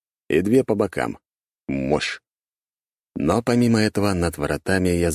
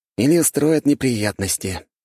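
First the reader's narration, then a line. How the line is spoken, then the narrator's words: Sighed. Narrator (Russian): вздохнул Тирс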